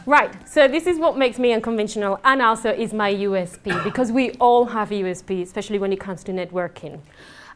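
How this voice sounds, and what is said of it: Spanish accent, fast speech. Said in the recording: “I'm, um, I'm um, Spanish. I do have an accent, and some people might find it difficult ... I'm from South Spain, uh, so we speak very, very, very, very, very fast”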